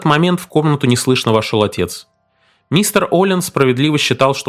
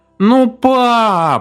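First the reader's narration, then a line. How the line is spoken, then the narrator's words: Child's desperate wail. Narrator (Russian): отчаянно взвыл маленький Оллен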